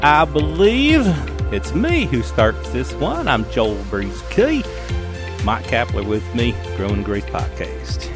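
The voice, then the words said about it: Put-on southern drawl. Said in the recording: “I don't know what's up with that southern drawl”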